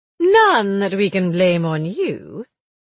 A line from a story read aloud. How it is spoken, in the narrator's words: Willie said sarcastically